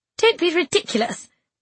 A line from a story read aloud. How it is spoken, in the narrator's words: I said sharply